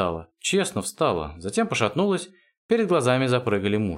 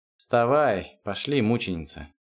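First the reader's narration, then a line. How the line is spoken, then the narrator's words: Grumble. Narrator (Russian): проворчал Эрик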